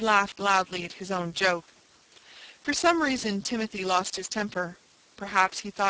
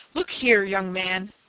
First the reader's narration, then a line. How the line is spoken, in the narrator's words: he snapped, glaring angrily